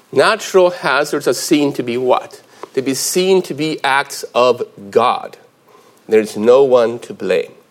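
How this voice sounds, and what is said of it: American-influenced accent. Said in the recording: “I'm very Swedish, as you can see from my name, but I spent a lot of time in the States. You can probably hear it from my accent, actually”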